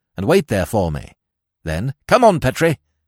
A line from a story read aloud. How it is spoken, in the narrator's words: he snapped